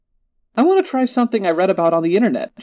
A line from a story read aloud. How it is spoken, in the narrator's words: exclaimed